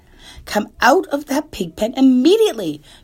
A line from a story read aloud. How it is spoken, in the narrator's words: cried Mrs